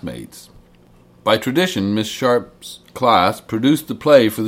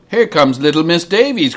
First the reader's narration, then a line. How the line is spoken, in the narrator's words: cried